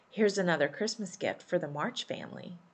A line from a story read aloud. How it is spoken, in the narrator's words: Lori quietly said